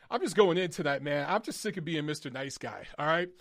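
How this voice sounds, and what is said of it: Hoarse, strained, fading voice. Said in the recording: “losing my voice”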